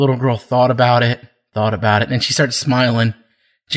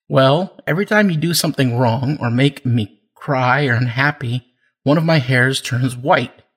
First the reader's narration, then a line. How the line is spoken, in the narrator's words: the mother replied